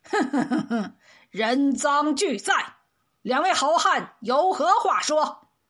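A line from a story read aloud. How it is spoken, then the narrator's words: Sly chuckling. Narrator (Chinese): 为首的大汉嘿嘿笑道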